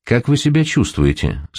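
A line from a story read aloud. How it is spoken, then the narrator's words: Plain question. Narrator (Russian): спросил следователь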